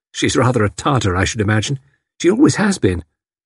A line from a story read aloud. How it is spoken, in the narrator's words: Something seemed to be restraining her, but Tuppence said cheerfully